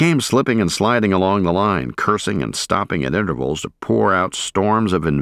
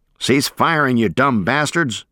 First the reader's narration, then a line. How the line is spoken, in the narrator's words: But Shadow was yelling